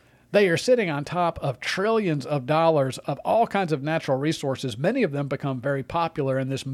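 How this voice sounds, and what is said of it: Usual voice. Nothing is said of it.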